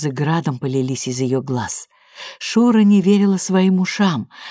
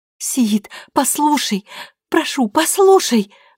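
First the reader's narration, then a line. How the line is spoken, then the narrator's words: Desperate pleading. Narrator (Russian): Взмолилась она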